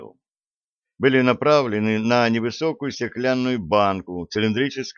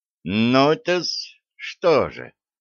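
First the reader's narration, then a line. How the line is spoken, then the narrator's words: Loud muttering, doctor. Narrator (Russian): Громко пробормотал доктор себе под нос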